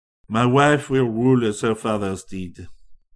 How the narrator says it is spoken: answered coolly

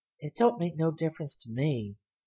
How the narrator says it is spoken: she said softly

